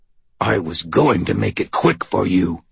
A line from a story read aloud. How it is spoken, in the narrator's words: he snarled